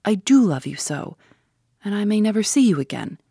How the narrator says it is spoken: she cried

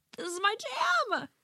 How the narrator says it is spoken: Your significant other yells

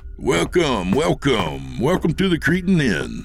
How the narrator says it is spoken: Jake said in his most gregarious tone

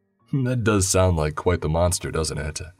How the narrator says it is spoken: Louis chuckled

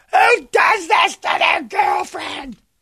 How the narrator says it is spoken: she is screaming on the phone

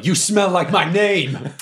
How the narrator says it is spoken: yell

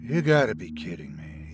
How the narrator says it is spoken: he said quietly

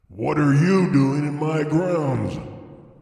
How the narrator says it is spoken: said the dark man with a hoarse, growling voice

